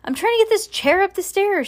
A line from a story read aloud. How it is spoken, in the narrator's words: shouted Bean